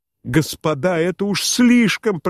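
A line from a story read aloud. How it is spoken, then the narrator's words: Desperate shout. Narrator (Russian): прокричал он в отчаянии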